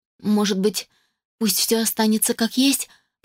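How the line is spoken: Broken voice. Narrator (Russian): предложила Анна надломленным голосом

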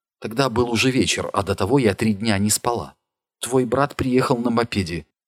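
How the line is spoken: Quiet confession. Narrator (Russian): негромко начала свою исповедь Джулия

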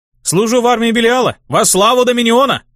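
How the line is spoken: Barking shout. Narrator (Russian): Рявкнул я

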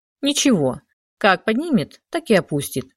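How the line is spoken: Categorical declaration. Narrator (Russian): категорическим тоном заявил Шишков

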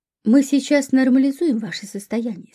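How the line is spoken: Plain. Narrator (Russian): сказал он

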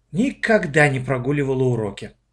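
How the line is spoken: Sighing. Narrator (Russian): вздохнула Оля

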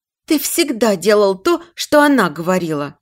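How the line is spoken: Exclamation. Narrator (Russian): воскликнула Ниночка

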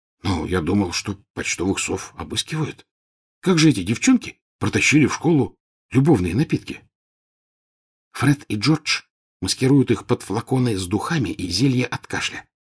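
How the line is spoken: Plain. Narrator (Russian): ответила Гермиона

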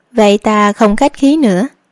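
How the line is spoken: Smiling. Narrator (Vietnamese): Hướng phu nhân cũng mỉm cười

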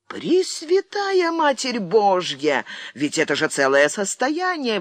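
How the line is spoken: Exclaiming. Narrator (Russian): воскликнул Рафаэль

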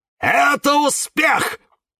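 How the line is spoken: Sudden shout. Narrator (Russian): вдруг закричал кактус Кирилл

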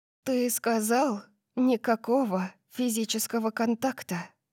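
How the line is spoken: Whispered. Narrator (Russian): Прошептала

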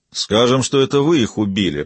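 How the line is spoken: Grumble. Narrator (Russian): проворчал Марит

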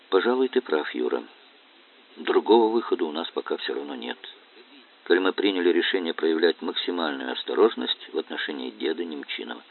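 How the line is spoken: Thoughtful. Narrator (Russian): Настя задумчиво сказала

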